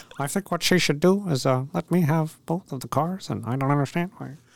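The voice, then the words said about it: Imitates another person's voice. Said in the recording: “That was my bad George Lucas impression ... That was a pretty bad George Lucas impression.”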